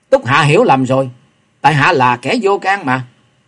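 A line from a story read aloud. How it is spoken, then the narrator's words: Angry. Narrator (Vietnamese): Kế Quan giận dữ nói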